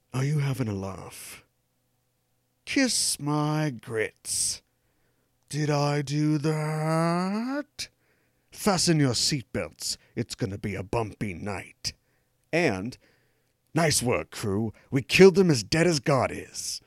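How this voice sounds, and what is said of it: Teeth-clenched put-on British accent. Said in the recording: “they're all going to be delivered in his teeth clenchingly British accent.”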